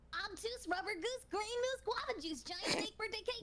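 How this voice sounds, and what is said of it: Timmy Turner impression. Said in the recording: “my Timmy Turner ... Okay, I'll do Timmy Turner”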